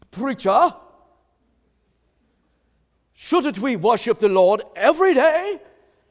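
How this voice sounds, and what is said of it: Put-on accent. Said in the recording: “Was that a good accent?”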